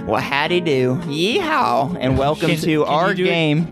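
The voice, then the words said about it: Put-on country accent. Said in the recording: “I would put on a country accent.”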